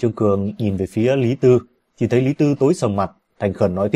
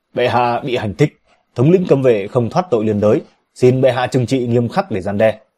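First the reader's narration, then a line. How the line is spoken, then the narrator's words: Stern loud shout. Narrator (Vietnamese): Lý Tư nghiêm mặt quét lớn, quát lớn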